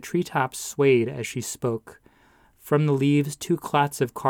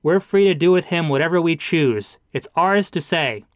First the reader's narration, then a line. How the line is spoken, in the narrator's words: shouted